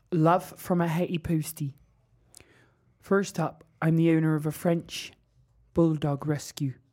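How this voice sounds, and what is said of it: Put-on Cornish accent. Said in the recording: “Everyone knows I can do a Cornwall accent. ... Not funny, is it, when I do it?”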